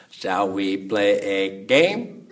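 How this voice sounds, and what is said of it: Poor impression of digitized computer voice. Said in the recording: “this like digitized voice box ... that was a horrible impression”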